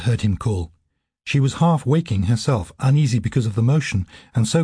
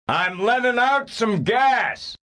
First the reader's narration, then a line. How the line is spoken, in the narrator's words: he shouted to Serafina Pekela